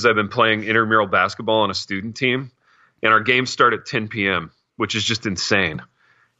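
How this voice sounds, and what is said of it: Tired, exhausted-sounding voice. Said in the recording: “I don't know if you can tell it in my voice, but I'm really exhausted today.”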